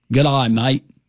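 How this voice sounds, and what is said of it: Put-on Australian accent. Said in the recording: “That's not a Japanese accent... That was Australia.”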